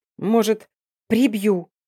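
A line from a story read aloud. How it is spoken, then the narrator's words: Sharp interruption. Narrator (Russian): Резкое зло перебило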